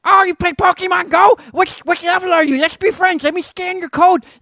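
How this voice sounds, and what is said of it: Nerdy impersonation of a stranger. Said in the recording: “How accurate of a impersonation is that? ... It's pretty close. ... He was that big of a nerd.”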